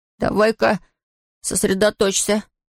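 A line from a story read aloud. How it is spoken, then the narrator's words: Muttering to himself. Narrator (Russian): пробормотал Том сам себе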